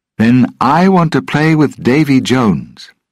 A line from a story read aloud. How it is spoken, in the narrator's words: Will said loudly